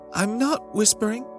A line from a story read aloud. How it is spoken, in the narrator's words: Jenny said in her tiniest speaking voice